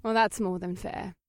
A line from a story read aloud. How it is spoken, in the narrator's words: Eva giggled